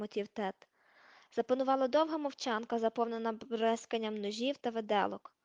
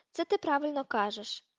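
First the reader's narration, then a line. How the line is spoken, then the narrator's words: Heavy sigh. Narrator (Ukrainian): важко зітхнув Дерк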